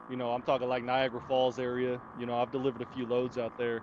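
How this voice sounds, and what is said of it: Thick Southern US accent. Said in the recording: “I got like this thick southern accent”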